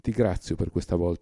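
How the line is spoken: Plain. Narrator (Italian): disse a Schwabrin

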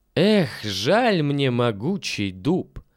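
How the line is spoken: Plain, ambassador. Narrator (Russian): говорит посол

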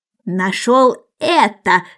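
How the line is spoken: Irritated mouse voice. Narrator (Russian): сказала мышь раздраженным голосом

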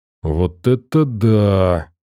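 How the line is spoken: Delighted drawl. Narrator (Russian): восторженно протянул Сагитай

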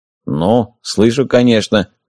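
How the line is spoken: Muttered. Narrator (Russian): буркнул пригоршня

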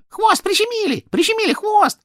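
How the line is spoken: Squeaking. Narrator (Russian): пищала обезьянка

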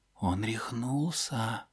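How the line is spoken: Whisper. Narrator (Russian): прошептал Рон

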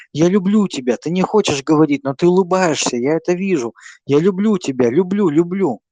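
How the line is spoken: Sly whisper. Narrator (Russian): С той же хитрой усмешкой он шептал

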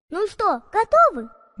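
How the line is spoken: Cheerful, encouraging. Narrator (Russian): Видимо, чтобы ее подбодрить, весело улыбнулась Стелла

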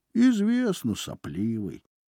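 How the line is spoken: Displeased grumble. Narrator (Russian): бурчал он недовольным голосом

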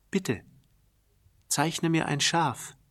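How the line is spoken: Very gentle, serious repetition. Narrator (German): wiederholte ganz sanft wie eine sehr ernsthafte Sache

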